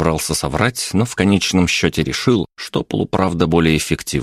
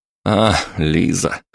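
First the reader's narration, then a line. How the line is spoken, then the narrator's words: Snorting. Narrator (Russian): хмыкнул я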